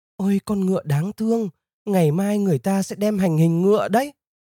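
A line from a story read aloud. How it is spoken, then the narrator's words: Sobbing, tender. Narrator (Vietnamese): Nàng rất thương con ngựa quý, vừa nức nở khóc vừa nói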